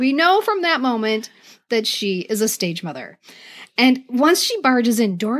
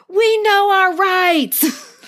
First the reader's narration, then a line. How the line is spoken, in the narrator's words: Doris's mom barges in and she shouts